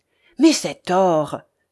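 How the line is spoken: Grave exclamation. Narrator (French): s'écria Ivanhoé gravement

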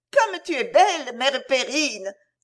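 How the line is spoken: Amazed child exclaiming. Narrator (French): s'écria l'enfant émerveillé

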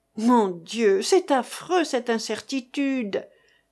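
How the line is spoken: Moaning. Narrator (French): gémit Madame d'Estol

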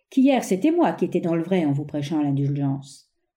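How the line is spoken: Sneering laugh. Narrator (French): ricana-t-il

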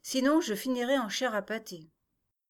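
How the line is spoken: Sighing. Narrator (French): soupira Élodie

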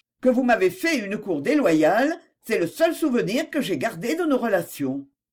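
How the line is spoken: Cold reply. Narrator (French): répondit Suzanne froidement

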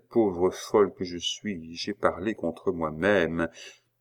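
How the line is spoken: Murmuring. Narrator (French): murmura-t-elle

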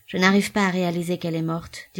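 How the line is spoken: Sad. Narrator (French): dit Robespierre tristement à l'autre bout du fil

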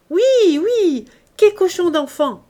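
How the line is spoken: Group shouting. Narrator (French): criait toute la table

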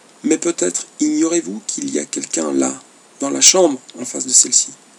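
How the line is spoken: Low voice. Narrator (French): dit le baron à voix basse

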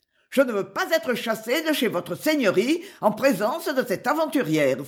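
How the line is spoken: Exclaimed. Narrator (French): s'écria-t-elle

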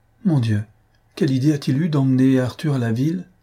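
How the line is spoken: Pained cry. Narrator (French): s'écria-t-elle d'une voix douloureuse

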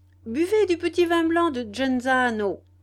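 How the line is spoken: Cheerful shout. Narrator (French): leur cria Dario, redevenu très gai

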